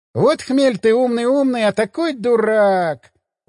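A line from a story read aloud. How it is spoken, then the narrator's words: Tired drawl. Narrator (Russian): устало протянул Гельман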